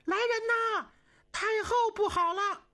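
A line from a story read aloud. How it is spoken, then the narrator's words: Frightened urgent shout. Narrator (Chinese): 春秀跟红玲全吓坏了，连忙高喊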